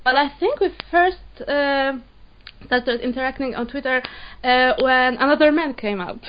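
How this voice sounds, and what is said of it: Polish accent. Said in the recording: “coming all the way from Poland... Poland, yeah. This is why my accent sounds like this.”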